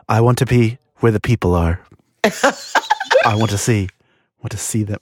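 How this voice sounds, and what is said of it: Singing impression of Faceless Old Woman. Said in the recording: “That actually was a really good impersonation of the Faceless Old Woman.”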